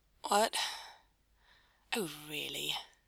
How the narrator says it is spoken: Aziraphale muttered

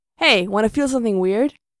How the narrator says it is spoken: Mikey snorts

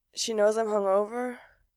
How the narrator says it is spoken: he asks weakly

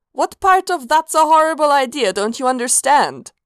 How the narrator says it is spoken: Sanguine chuckled

